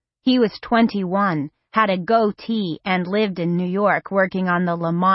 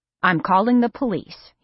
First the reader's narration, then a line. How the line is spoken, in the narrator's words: he said